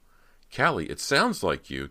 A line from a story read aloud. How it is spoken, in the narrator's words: Cody cried, her voice trembling from the shivers that convulsed her body